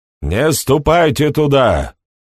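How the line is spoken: Shouted. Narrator (Russian): крикнул Бохун

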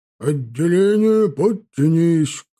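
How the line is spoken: Loud resonant shout. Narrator (Russian): крикнул он зычным голосом

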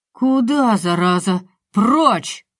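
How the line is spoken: Roar. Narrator (Russian): взревел полицай

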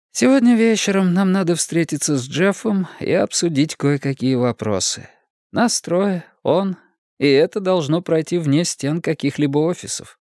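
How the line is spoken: Sighing. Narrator (Russian): Мэтти вздохнула и сказала

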